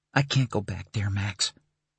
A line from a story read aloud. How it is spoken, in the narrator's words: he whispered